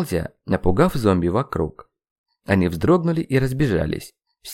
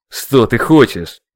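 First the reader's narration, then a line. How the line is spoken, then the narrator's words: Angry question. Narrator (Russian): зло спросил я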